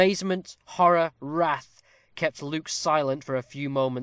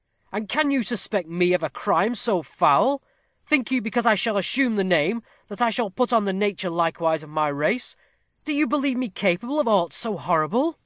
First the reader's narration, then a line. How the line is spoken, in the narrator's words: Starting to his feet, he cried